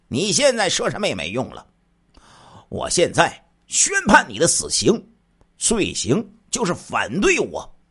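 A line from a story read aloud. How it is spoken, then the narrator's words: Sneering. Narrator (Chinese): 杨万春一听，冷笑着说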